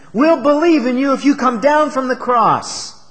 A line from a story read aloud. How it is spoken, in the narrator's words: they cried out to him